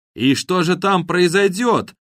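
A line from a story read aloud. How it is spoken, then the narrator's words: Shouting over helicopter noise. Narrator (Russian): прокричал Харон сквозь шум опускающейся на землю желто-синей вертушки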